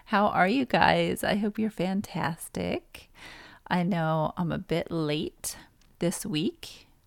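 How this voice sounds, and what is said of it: Crackly voice. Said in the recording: “My voice is crackly.”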